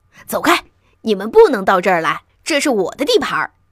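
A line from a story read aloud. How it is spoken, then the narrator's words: Angry small voice. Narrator (Chinese): 长胡须、尖瘦的小脸儿，并传来怒气冲冲的说话声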